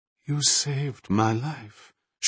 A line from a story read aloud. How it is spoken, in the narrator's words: she continued in that hollow tone